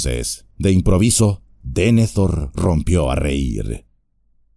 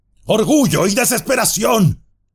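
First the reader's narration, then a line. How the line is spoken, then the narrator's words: Shouted. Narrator (Spanish): gritó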